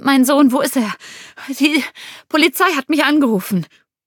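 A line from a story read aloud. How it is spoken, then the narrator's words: Panting woman. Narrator (German): keuchte sie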